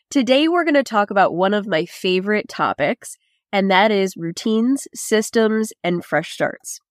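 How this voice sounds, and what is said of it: Slightly raspy voice. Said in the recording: “My voice is still a bit raspy as I'm getting over a cold”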